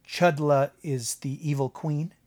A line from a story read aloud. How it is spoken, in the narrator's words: he asked